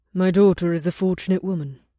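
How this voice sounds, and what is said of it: Low, quiet voice. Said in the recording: “in a low voice”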